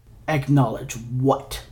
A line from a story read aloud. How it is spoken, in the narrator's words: Three growled